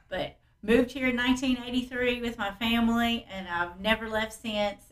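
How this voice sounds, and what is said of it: Southern Kentucky accent. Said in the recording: “by listening to my accent, according to everybody else up north, I'd have to show them my birth certificate to prove that I was born in Ohio”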